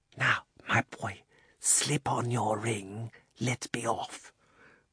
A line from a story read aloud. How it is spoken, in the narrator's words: the old man put his mouth so close to Diggory's ear that it tickled, and whispered